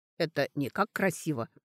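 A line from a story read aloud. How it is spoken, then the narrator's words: Muttering. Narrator (Russian): пробормотала та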